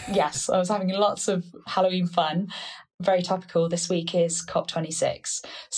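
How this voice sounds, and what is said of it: Slightly hoarse, losing voice. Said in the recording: “slightly losing my voice.”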